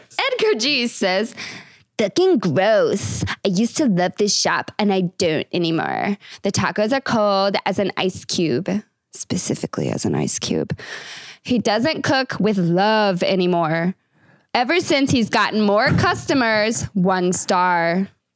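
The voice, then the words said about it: Funny character voice reading review. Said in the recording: “Bad Reviews Read in a Funny Voice ... That's a name that demands a funny voice.”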